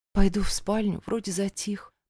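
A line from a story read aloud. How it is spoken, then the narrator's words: Whisper. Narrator (Russian): прошептала я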